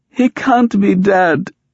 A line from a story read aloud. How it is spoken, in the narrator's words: Sari cried